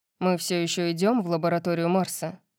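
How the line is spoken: Grumbling. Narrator (Russian): проворчал он

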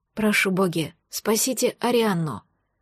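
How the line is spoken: Husband whispering. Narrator (Russian): шепот мужа

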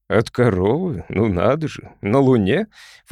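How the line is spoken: Snorting. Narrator (Russian): фыркнул Сэм Брустер

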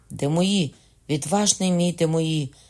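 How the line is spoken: Cry out. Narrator (Ukrainian): скрикнув Генріх

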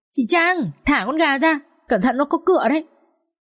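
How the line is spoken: Shouting. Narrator (Vietnamese): Vũ hét lên

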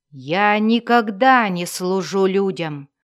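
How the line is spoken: Growl. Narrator (Russian): прорычал Эрту

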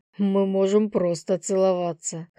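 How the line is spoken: Lion smirking. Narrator (Russian): хмыкнул лев

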